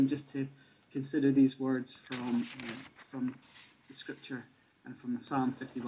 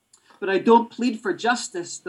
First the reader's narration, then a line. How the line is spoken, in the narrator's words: the mother cried out